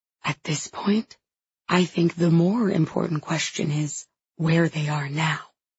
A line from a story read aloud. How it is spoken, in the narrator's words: she whispers